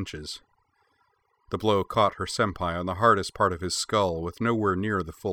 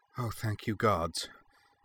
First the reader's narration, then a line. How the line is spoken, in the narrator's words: Anne murmured